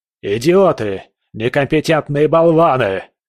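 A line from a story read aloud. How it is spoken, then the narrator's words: Roaring, echoing. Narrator (Russian): Проревел он, и его голос эхом разнесся по кабинету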